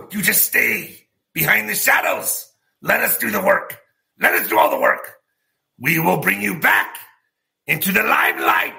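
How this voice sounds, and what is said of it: Evil villain voice. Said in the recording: “Do you guys like my evil voice?”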